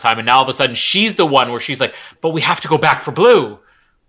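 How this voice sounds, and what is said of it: Imitates another person's voice, odd intonation. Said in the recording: “You had like an intonation in your voice there ... That was my Bryce Dallas Howard impression.”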